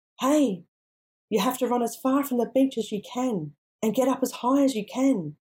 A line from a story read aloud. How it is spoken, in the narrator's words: screams, shouting